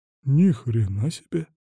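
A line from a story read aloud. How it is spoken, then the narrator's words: Muttered. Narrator (Russian): пробормотал Василий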